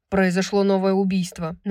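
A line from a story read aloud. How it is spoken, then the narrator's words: Tense, cold announcement. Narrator (Russian): напряженным, холодным голосом сообщил Ангел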